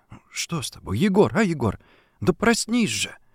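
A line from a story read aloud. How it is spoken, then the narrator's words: Low urgent murmur. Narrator (Russian): приговаривая вполголоса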